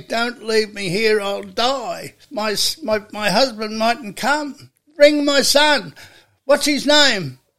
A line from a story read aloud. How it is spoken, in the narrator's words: she's pleading with him through the gag